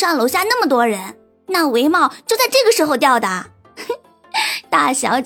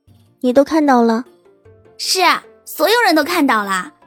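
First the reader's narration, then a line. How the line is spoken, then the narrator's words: Faint smile. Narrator (Chinese): 秦婉如淡淡一笑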